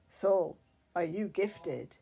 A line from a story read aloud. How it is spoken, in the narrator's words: growled